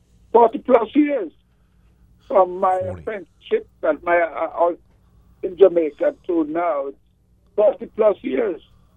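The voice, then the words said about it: Slight Jamaican accent. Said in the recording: “I hear a little accent. ... I'm from Jamaica in the West Indies.”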